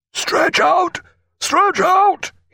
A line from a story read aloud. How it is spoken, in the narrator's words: he cried, right into the labouring stroke-oar's agonised, contorted face